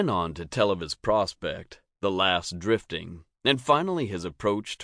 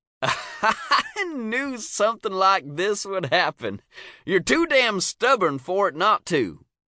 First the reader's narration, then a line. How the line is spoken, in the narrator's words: Cy said, laughing with pleasure